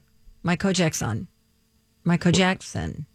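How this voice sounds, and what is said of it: Speaks a phrase faster. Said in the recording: “Say it faster.”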